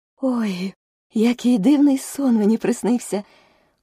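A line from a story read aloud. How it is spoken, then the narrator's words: Exclaiming. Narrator (Ukrainian): вигукнула Аліса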